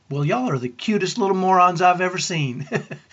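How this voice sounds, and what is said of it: Deep Southern accent, near yell. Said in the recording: “in her deep southern accent, she almost yelled”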